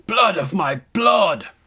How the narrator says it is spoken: Recaro shouted

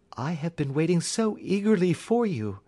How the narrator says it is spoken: she cried

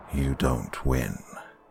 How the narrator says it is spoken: he said quietly

